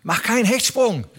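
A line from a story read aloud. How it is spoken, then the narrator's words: Called out. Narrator (German): rief er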